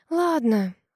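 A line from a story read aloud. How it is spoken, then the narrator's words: Sighing. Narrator (Russian): Вздохнула я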